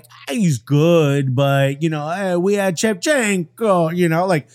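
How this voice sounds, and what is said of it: Put-on accent. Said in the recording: “I hope you enjoyed my accent there.”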